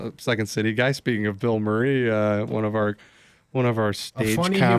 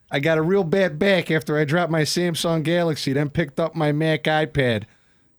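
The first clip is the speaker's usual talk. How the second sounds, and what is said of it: Put-on Chicago accent. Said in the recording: “in a Chicago accent”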